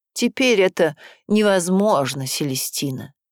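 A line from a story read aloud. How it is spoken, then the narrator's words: Serious fatherly tone. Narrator (Russian): Жозеф отвечает мне серьезным отеческим тоном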